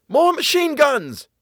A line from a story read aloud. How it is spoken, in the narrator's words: Bill yelled to Tom